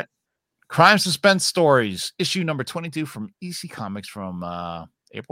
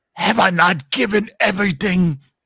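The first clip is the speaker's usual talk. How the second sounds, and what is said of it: Imitates another person's voice. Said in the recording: “That was my accent for the day. ... That was good.”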